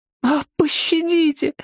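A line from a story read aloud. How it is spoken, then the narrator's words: Pleading cry. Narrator (Russian): воскликнула она в мольбе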